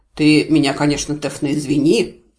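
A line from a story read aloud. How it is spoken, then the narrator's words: Doubtful grumble. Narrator (Russian): с сомнением пробурчал Варий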